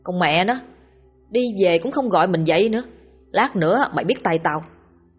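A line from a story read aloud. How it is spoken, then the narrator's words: Grumbling mutter. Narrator (Vietnamese): miệng lầm bầm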